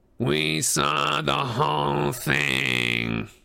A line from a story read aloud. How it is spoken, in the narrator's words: she hissed